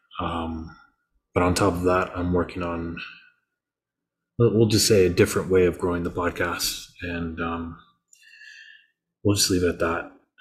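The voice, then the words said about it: Disappointed, downcast voice. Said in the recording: “I'm sure you can hear the disappointment in my voice.”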